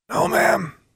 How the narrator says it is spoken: Alexandra wheezed

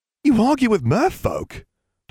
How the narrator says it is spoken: Dudley exclaimed, chatting away

